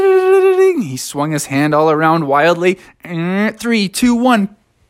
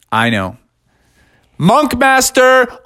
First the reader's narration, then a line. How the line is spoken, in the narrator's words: called out Monk Master